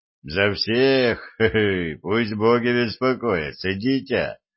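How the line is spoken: Laughing man. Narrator (Russian): рассмеялся лысый мужик

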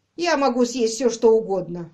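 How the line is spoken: Good-natured grumble. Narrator (Russian): добродушно проворчал муж

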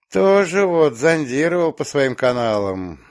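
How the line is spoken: Resigned sigh. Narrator (Russian): обреченно вздохнул

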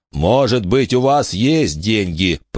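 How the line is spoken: Growled. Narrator (Russian): прорычал Джон

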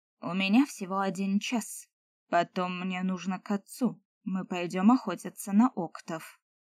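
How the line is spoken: Displeased voice. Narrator (Russian): недовольным голосом произнес Сол

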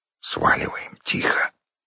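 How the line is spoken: Whispered reply. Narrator (Russian): прошептал в ответ леший

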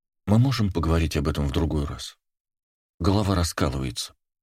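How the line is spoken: Muffled, tearful mumble. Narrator (Russian): пробормотала Лаура, уткнувшись лицом в подушку, еще влажную от слез

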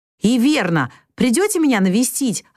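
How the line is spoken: Joyful exclamation. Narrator (Russian): радостно воскликнул Лори

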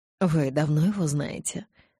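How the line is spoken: Embarrassed sigh. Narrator (Russian): Адвокат сконфуженно вздохнул

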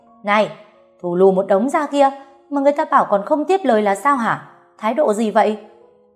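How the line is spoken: Heavy breathing, shouting. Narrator (Vietnamese): Tôi cố gắng thở mạnh, hét tiếp

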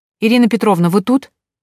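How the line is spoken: Calling out. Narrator (Russian): Тоня снова крикнула

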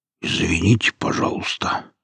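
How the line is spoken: Belated mumble. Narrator (Russian): как-то запоздало промямлил сталкер

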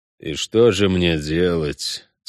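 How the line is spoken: Through gritted teeth. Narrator (Russian): сквозь зубы спросил Геральт

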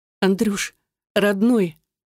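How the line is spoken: Tearful whisper. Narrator (Russian): шепчу я сквозь слезы

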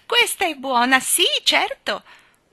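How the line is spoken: Loud laughter. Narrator (Italian): Nelly Rubina rise rumorosamente

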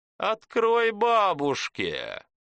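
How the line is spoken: Howling in strange voice. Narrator (Russian): Виктор завыл не своим голосом

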